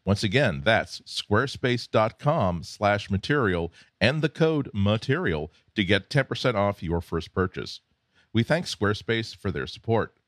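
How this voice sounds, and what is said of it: Polished announcer-style radio voice. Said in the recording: “I love your radio voice ... Never lose that radio voice.”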